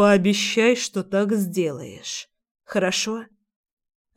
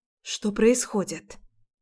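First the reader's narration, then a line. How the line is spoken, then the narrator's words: Frightened quiet whisper. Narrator (Russian): Так же тихо, с испугом, шепчу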